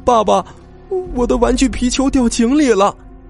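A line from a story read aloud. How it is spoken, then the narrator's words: Crying child. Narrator (Chinese): 小宝一边哭一边说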